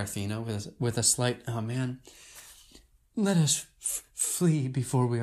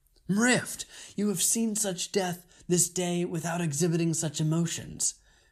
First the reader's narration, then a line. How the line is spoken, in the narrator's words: exclaimed Grignir